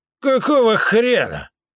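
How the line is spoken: Fierce roar, grey-haired man. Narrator (Russian): взревел седой мужик со зверским выражением лица

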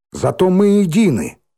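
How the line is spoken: Sharp cutting off. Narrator (Russian): резко оборвала Миронова

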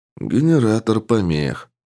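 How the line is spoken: Sigh. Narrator (Russian): вздохнул Александр

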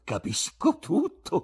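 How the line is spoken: Exclaimed. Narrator (Italian): esclamò

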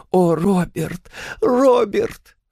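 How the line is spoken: Sobbing. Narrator (Russian): всхлипнула

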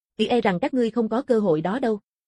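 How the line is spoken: Cold, sinister. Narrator (Vietnamese): Đồng Tử lộ ra vẻ âm tàn, lạnh lùng nói

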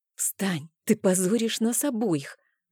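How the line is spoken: Hissed. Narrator (Russian): зашипела

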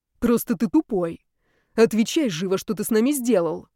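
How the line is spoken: Snakelike hiss, girl. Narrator (Russian): зашипела змеей девушка

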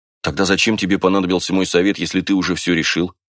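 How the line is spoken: Plain question. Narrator (Russian): спросил Уриона

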